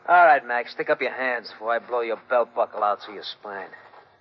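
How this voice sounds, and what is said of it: Brooklyn accent. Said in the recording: “How did you get in here without a Western dialect? ... I've been betrayed by a Brooklyn accent.”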